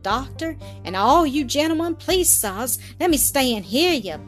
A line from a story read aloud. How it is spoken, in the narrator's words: pleaded in an undertone of affright